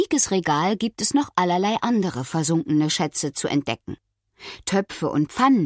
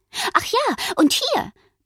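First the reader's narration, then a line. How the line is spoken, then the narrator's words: Giggling. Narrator (German): meint und kichert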